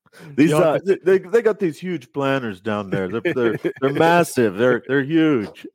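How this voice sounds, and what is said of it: Donald Trump impression. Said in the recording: “in your best Donald Trump voice ... fake Donald Trump”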